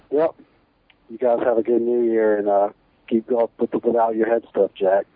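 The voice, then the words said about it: Virginia accent. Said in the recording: “I'm from Virginia, so I guess we all kind of have the same kind of accent”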